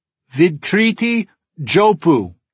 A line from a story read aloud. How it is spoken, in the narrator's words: I shout into the microphone